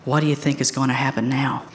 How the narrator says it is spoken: Quietly, I whispered to Lewis

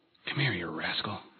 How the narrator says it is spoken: whispered

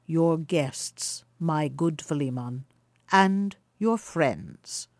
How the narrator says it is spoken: replied the elder traveller, in his mild, deep voice, that had something at once sweet and awe-inspiring in it

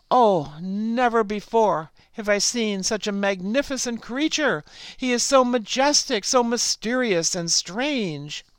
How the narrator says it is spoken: frog sighed

